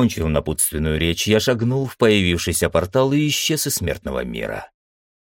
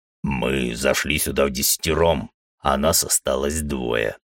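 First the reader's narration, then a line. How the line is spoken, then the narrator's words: Big man grumbling. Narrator (Russian): пробурчал верзила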